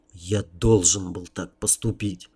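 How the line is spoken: Self-persuading whisper. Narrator (Russian): прошептал я, стараясь скорее уговорить себя, нежели маму

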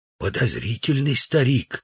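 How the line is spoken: Whisper. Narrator (Russian): сказал Удалов шепотом

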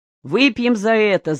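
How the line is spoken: Shouted. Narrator (Russian): закричал Спиридон

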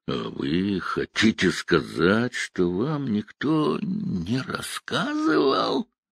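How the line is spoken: Drawling. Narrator (Russian): Сид протянул

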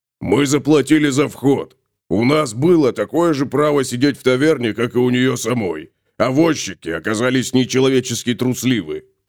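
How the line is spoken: Grumbling. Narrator (Russian): пробурчал Готрек

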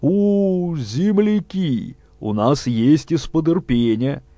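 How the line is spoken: Joyful grizzled cook. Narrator (Russian): радостно откликнулся варничный повар, заросший до глаз седой щетиной

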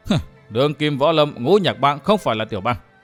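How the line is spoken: Startled, cold laugh. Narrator (Vietnamese): Vân Thiên Nhạc hơi sửng sốt, đoạn cười nhạt nói

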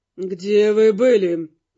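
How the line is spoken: Through clenched teeth. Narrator (Russian): процедил Глун

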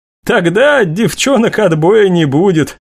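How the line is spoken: Agreeing after laughter. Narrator (Russian): согласилась Анастасия, отсмеявшись

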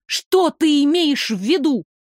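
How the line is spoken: Angry shout. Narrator (Russian): сердито крикнула я

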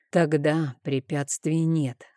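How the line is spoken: Hoarse whisper. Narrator (Russian): хрипло прошептал я

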